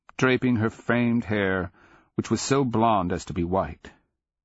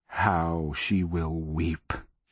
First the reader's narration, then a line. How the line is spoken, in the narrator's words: she growled